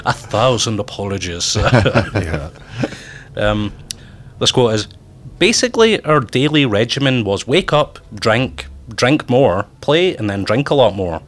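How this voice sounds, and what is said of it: Thick Scottish accent. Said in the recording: “You guys got a thicker Scottish accent. You have the Scottish accent that we all hear about”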